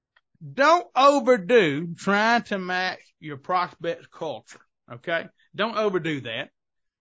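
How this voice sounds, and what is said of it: Southern American accent. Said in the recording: “I'm Southern, as you can tell from my accent”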